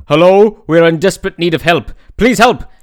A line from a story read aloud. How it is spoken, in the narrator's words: shouted Melos